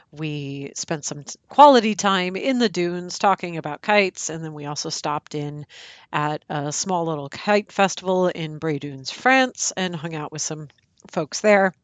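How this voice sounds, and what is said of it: Scratchy voice. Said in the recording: “my voice sounds a little bit scratchy”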